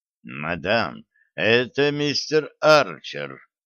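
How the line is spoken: Dry. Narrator (Russian): сухо сказал Хинкль

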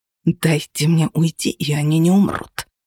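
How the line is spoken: Hiss, no flattery. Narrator (Russian): прошипел он, уже не пытаясь льстить

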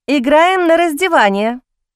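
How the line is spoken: Loud declaration, young woman. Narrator (Russian): громко заявила девушка

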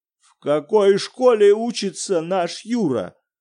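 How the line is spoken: Terrible-voiced question. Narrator (Russian): спросил Виктор Петрович ужасным голосом

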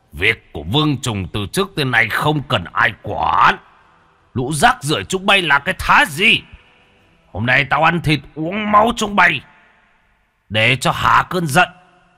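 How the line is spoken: Roaring. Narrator (Vietnamese): Trùng Dần gầm lên một tiếng

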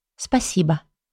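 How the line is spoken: Quiet, holding back tears. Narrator (Russian): Тихо выдает она, подавляя слезы

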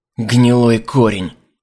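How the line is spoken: Hissing, hostile. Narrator (Russian): прошипел Лориэль, отбросив маску преданности

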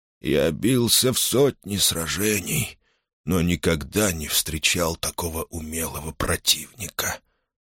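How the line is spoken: Dying whisper. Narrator (Russian): прошептал он и испустил дух

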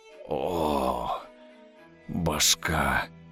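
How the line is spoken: Groaning. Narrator (Russian): Простонал он

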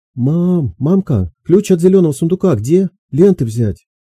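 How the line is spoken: Ringing girl's shout. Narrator (Russian): Звонкий девичий голос кричал

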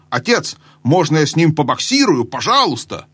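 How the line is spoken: Shouted. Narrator (Russian): Корин крикнул

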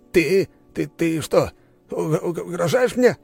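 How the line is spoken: Stammering question. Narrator (Russian): заикаясь, спросил он

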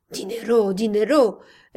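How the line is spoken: Hoarse exclamation. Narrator (Spanish): exclamó roncamente el cura

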